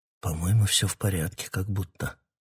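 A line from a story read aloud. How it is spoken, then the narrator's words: Whisper. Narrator (Russian): прошептал Питер Марлоу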